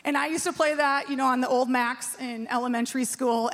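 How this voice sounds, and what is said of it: Minnesota accent. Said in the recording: “I'm saying it right this hour, Oregon, because I have a Minnesota accent. I say Oregon.”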